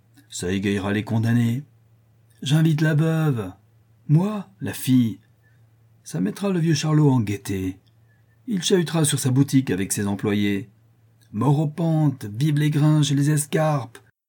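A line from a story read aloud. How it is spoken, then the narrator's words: Quivering shout. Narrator (French): cria le squelette d'une voix frémissante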